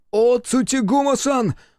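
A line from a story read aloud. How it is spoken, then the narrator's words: Howling. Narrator (Russian): взвыл Танетома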